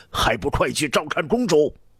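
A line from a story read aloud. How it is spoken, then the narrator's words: Roaring. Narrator (Chinese): 刘彻吼道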